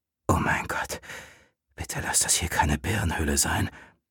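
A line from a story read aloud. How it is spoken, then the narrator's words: Dry-mouthed whisper. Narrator (German): wisperte er mit trockenem Mund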